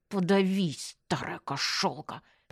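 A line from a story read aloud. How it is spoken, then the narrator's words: Hissed. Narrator (Russian): прошипела я бабке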